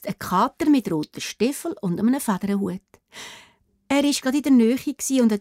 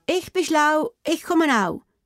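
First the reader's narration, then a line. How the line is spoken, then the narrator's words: Slender man calling. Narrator (German): ruft der schlanke Mann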